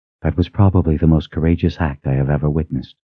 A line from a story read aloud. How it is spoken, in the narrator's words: said softly